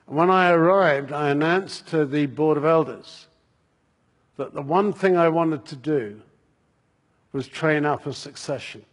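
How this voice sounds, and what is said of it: English accent. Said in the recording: “You will have gathered from the accent that I'm English.”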